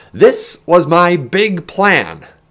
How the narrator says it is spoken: Ben shouted over the rushing air

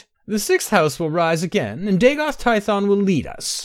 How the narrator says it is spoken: Akra laughed

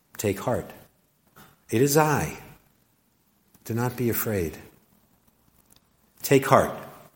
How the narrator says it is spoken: Jesus gently and clearly says to them

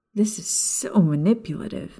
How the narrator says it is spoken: Maya mumbled bitterly

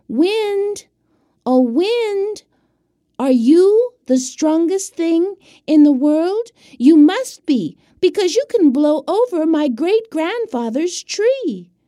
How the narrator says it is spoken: the boy called out

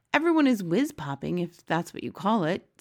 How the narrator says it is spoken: Sophie said

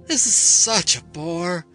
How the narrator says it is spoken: she would yawn

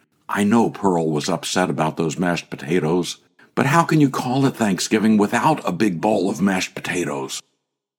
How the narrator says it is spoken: At Pearl's graveside, Mother whispered to me

